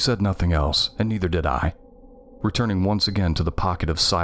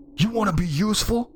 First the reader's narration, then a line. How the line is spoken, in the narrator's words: yelled